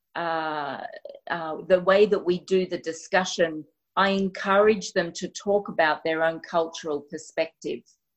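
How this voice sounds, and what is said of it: Australian accent. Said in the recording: “my accent, even the Aussie accent, can be a bit challenging for people”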